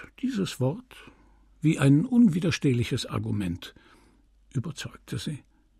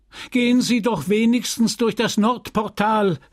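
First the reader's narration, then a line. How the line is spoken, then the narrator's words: Calling out. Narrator (German): rief der Schweizer, der immer noch auf der Schwelle stand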